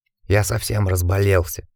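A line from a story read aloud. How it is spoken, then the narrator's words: Whispered. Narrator (Russian): прошептал Ричард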